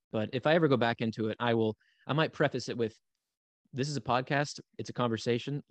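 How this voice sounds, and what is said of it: Hoarse morning voice. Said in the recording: “my voice sounds like hoarse because it's morning here”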